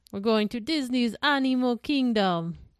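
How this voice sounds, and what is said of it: Put-on Jamaican accent. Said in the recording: “I said that Jamaican and not African ... I can't do anything but a Jamaican accent”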